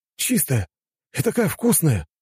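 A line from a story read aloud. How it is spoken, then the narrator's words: Young man's exclamation. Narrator (Russian): воскликнул молодой мужчина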